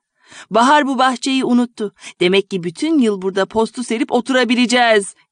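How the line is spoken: Joyful group shouting. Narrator (Turkish): diye sevinç haykırışları kopardılar

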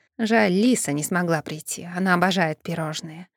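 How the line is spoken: Grumbling under breath. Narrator (Russian): пробурчала себе под нос Грета

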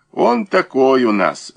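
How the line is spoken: Laughing. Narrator (Russian): засмеялся Муравьев

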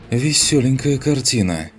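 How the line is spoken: Exhaled remark. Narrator (Russian): выдохнул шедший впереди Рексар

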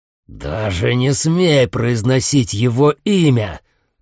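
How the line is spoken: Growling soldier. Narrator (Russian): прорычал солдат

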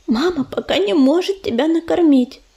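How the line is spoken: Whispered. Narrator (Russian): прошептала Мотылинка

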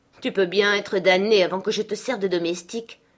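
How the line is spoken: Young man grumbling. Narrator (French): grommela le jeune homme

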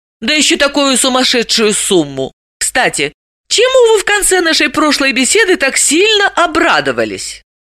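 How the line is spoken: Delighted boyish exclamation. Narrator (Russian): Орлов, совсем как мальчишка, восхищенно воскликнул

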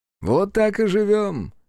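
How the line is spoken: Cheerful announcement. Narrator (Russian): весело сообщил гадюке Хицу

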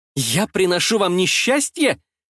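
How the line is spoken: Shouted. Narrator (Russian): закричала я

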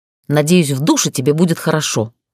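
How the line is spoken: Snorted. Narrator (Russian): фыркнула я

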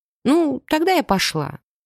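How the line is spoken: Uncertain remark. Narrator (Russian): заметила я неуверенно

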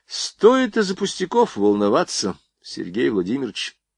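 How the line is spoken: Calm. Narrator (Russian): Спокойно проговорил Жуковский

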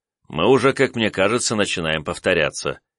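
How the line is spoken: Sighing. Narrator (Russian): вздохнул я

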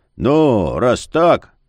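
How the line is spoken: Drawl. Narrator (Russian): протянул он

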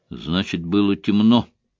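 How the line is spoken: Exclaiming. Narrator (Russian): воскликнул Айшем

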